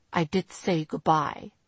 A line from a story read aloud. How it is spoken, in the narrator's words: he replied stiffly, immediately on the defensive